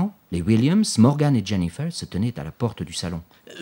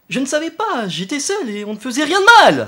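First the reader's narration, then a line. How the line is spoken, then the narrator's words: Shouting. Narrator (French): cria Lucas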